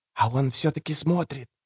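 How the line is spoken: Breathless boy's whisper. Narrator (Russian): шептал, чуть дыша, мальчик

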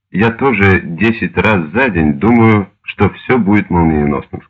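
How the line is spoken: Plain. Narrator (Russian): сказал Штирлиц

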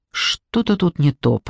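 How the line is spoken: Muttering. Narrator (Russian): пробормотала я

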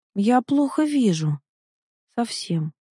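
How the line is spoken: Sad drawl. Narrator (Russian): грустно протянул он

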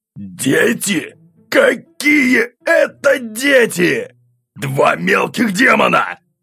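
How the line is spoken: Growled. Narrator (Russian): рыкнул он

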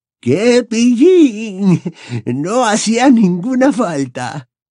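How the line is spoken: Shrill old woman's voice. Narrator (Spanish): repuso la anciana Hepzibah con voz chillona

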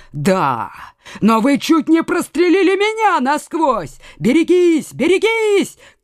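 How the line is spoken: Shout. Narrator (Russian): крикнул Лаюрьер

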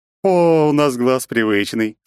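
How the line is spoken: Laughing again, young woman. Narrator (Russian): снова хохотнула девица

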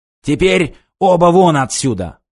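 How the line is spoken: Growled. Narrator (Russian): прорычал он

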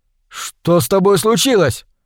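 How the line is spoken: Shouted. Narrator (Russian): крикнул

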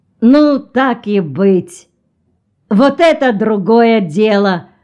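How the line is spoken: Sudden cheerful. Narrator (Russian): Тегран Келл вдруг весело сказал

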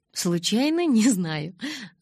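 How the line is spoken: Laughing. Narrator (Russian): засмеялась я

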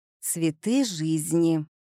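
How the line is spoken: Forced out. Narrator (Russian): выдавила я

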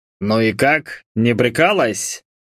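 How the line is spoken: Curious snort. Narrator (Russian): С интересом хмыкнул мой собеседник

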